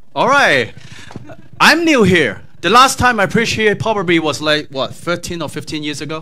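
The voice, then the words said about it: Slight Texas accent. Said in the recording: “with a semi-Texas accent”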